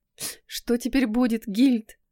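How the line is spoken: Tearful sobbing girl. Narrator (Russian): всхлипнула девушка, смаргивая слезы

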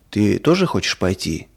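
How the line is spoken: Plain. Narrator (Russian): спросил папа

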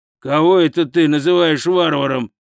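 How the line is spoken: Growl. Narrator (Russian): прорычал Хрун

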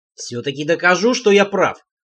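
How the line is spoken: Wry grunt. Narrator (Russian): хмыкнул он

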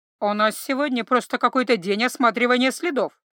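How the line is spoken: Gargoyle's grumble. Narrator (Russian): проворчала горгулья

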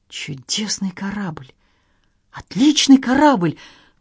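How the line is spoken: Stunned exclamation. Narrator (Russian): воскликнул Генри ошеломленно

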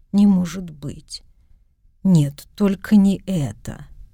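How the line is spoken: Quiet voice. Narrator (Russian): закрыл лицо руками и тихо промолвил

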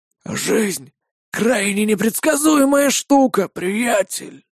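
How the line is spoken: Wheezed. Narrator (Russian): прохрипел Линк

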